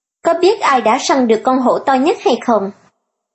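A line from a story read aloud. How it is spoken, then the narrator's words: Smug, smiling. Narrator (Vietnamese): Thiện Như mỉm cười, đắc ý nói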